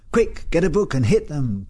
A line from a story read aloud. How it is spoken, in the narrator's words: cried Leslie